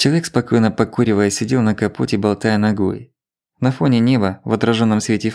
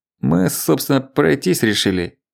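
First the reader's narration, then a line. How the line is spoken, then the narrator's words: Mumble. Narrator (Russian): пробормотал Сомерс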